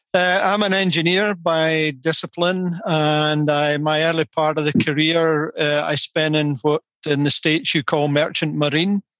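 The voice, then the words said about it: Scottish accent. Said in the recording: “the strange accent is from Scotland”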